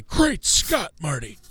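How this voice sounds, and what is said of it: Imitates a film character's voice. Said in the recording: “able to do a really good impression of Doc Brown, Christopher Lloyd's character from Back to the Future ... My voice, I've still got a bit of a cold”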